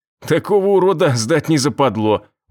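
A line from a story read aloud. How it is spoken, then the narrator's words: Laughing. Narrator (Russian): он засмеялся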